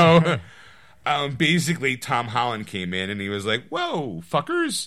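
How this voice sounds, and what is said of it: Usual voice. Nothing is said of it.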